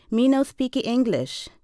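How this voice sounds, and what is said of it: Phony Spanish accent. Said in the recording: “He says in a phony Spanish accent”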